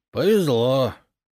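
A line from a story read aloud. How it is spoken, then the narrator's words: Envious sigh, drunkard. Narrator (Russian): С завистью вздохнул пьянчуга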